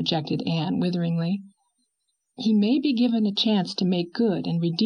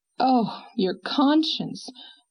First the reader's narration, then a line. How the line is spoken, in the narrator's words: moaned Anne